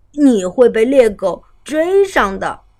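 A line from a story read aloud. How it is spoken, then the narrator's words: Teasing. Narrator (Chinese): 取笑他说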